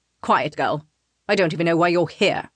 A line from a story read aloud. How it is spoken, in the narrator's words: Wraith snaps at me